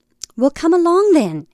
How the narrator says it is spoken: it cried, not to them, but to an invisible companion

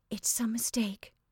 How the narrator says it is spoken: she said faintly

